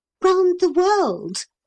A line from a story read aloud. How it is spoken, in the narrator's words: cried Neville